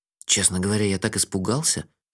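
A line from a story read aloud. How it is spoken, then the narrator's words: Whispered confession. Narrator (Russian): шепотом признался я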